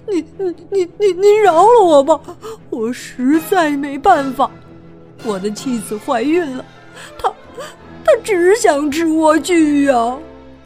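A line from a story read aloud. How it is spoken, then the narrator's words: Terrified crying man. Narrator (Chinese): 丈夫非常害怕，哭着说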